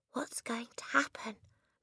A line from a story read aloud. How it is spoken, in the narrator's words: Lavender whispered back